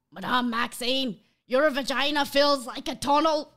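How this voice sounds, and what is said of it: Put-on Scottish accent. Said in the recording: “let's test out my Scottish accent ... Incredible delivery”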